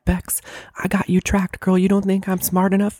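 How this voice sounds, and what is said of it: Whispering in a character voice. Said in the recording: “I don't know why I'm whispering right now.”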